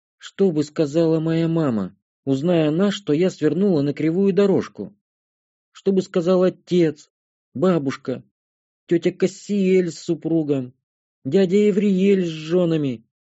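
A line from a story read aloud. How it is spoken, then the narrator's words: Abruptly breaking off. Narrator (Russian): Светлая вдруг резко осеклась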